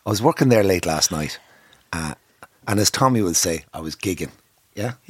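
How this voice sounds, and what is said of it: Croaky, hoarse voice. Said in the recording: “What happened to your voice? ... My voice is croaky.”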